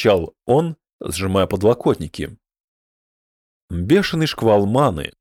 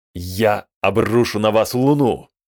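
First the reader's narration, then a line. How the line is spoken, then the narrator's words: Heavy booming incantation. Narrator (Russian): губы зашевелились, произнося тяжелые, гулкие слова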